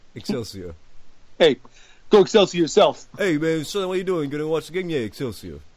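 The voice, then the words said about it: Vague put-on New York accent. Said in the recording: “I was a vague New York accent in your Excelsior”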